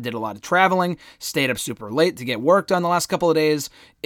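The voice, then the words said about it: Hoarse, worn-out voice. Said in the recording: “my voice is so shot”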